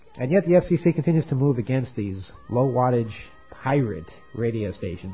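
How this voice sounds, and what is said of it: Sarcastic air-quotes tone. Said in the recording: “in case you couldn't tell by my tone, I was putting pirate in quotes”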